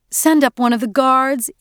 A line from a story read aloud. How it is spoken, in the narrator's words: Edie pleaded